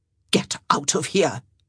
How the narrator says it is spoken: Araminta hissed

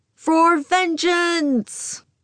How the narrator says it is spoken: The partying pilots shout

